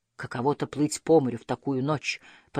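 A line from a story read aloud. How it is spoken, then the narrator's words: Muttering to himself. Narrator (Russian): пробормотал папа, словно про себя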